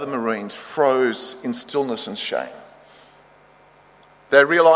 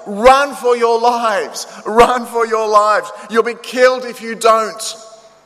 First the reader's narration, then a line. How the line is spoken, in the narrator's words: yells